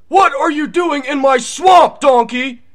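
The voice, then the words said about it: Nick Cage impression doing Shrek. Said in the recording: “voice impressions ... do a Nick Cage impression? ... Nick Cage doing Shrek?”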